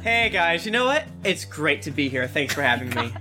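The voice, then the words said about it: Fake, robotic podcast-host voice. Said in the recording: “Your fake podcast voice really weirds me out ... You're a robot man.”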